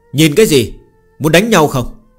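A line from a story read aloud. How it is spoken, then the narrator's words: Aggressive shout. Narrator (Vietnamese): Phương Hành hung hăng quát lên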